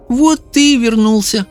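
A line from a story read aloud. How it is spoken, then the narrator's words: Smiling through tears. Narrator (Russian): улыбнулась сквозь слезы Люсинда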